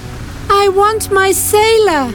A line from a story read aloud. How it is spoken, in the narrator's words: Then she cried